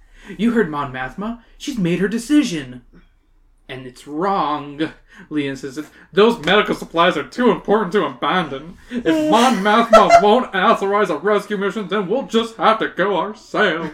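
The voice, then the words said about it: Character voice with southern accent. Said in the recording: “Is that what Mark Hamill sounds like in your brain? ... No, that was Leia. ... she kind of does have a southern accent.”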